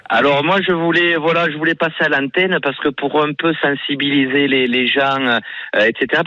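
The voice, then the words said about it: Southern French regional accent. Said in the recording (French): “Font-Romeu, en Cerdagne-Cap-Cyr, en fait à la montagne au-dessus de Perpignan ... et l'accent qui va avec”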